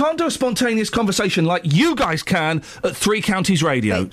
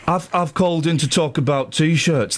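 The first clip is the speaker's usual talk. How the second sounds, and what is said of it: Attempted Birmingham accent. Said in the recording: “I can't do a Birmingham accent.”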